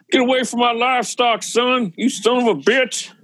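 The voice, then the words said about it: Put-on redneck accent. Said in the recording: “puts on a redneck voice”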